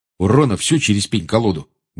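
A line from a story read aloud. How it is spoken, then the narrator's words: Grumble. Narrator (Russian): буркнул Джордж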